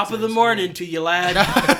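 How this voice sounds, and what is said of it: Put-on Irish accent. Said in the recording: “Is he the Irish one? ... Yes, he's Irish. ... Can I do the accent?”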